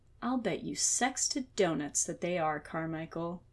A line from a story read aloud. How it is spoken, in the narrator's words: Murphy said, her voice dripping sweet venom